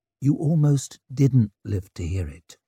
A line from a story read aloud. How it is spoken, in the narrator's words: she said softly